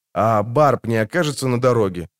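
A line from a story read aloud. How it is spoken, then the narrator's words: Plain. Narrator (Russian): спросил Хевлок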